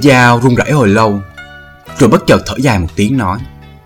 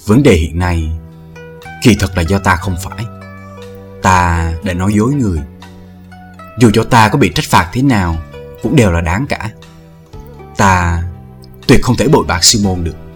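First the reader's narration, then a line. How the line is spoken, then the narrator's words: Lowered quiet voice. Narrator (Vietnamese): hạ giọng nói nhỏ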